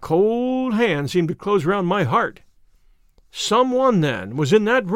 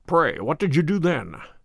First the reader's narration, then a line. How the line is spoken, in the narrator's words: he murmured